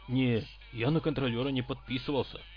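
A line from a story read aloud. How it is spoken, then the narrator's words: Openly frightened. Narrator (Russian): откровенно испуганно сказал Обод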